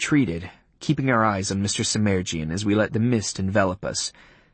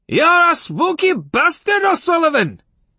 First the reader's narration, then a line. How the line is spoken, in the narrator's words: he yelled